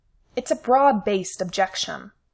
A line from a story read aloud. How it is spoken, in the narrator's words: Simon snapped